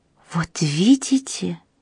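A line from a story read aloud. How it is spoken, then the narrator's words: Whispering. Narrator (Russian): прошептала госпожа Макнотон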